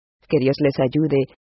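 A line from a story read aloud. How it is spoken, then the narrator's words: Plain. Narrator (Spanish): dijo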